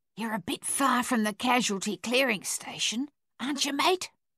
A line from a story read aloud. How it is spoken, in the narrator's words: an Australian sentry whispered